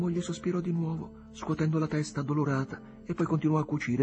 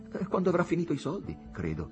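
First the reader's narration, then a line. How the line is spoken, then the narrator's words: Plain. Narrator (Italian): rispose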